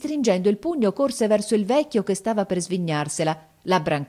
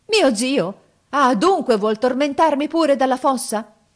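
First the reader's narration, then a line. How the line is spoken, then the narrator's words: Shouted. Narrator (Italian): Gianni gridò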